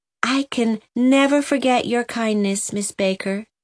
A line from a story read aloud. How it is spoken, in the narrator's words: said Delilah, her voice quivering with emotion